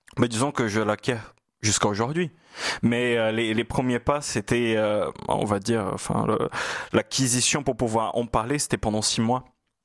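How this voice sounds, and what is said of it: Brazilian Portuguese accent in French. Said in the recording (French): “le dis chaloupé ... c'est votre brésilien natal, votre portugais natal ... c'est mon portugais du nord-est du Brésil”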